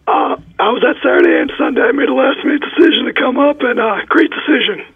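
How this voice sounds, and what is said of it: Hoarse, strained lost voice. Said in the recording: “Lost my voice from the game ... I really lost my voice. ... It sounds very painful”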